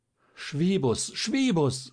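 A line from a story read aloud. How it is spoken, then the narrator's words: Heartbroken cry. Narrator (German): rief Schierling, dem der Anblick das Herz zerriss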